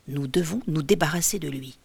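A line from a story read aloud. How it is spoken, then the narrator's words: Murmuring. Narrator (French): murmure l'un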